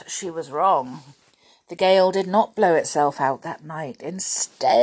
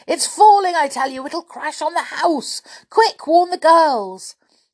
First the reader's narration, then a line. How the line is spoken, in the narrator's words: Shouting at the top of his voice, Julian